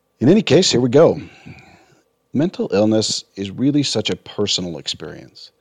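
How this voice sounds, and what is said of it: Raspy, hoarse voice. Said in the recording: “excuse my voice this week. I'm a little raspy due to an experience with COVID”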